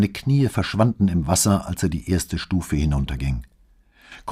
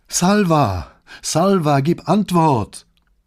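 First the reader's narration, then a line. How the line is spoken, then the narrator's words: Calling into emptiness. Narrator (German): rief in die Leere dahinter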